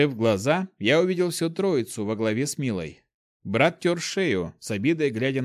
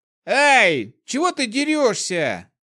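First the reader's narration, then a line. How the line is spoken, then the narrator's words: Indignant yell. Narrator (Russian): тут же возмущенно завопил он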